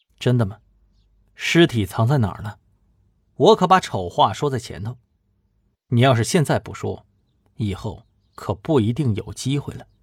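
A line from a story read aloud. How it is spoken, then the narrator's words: Cold. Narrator (Chinese): 冷冷的说道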